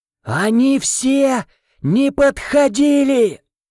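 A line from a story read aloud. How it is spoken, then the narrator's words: Louder shout. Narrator (Russian): Еще громче крикнула няня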